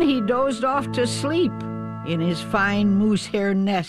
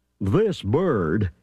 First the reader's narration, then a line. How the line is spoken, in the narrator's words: murmured Thidwick